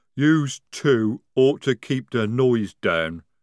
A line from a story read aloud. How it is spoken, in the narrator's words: rumbled Jade